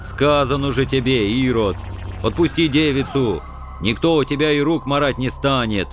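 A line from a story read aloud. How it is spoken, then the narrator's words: Booming rumble. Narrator (Russian): прогудел злобыня Никитич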